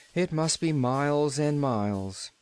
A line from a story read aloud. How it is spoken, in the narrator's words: she agreed with a sigh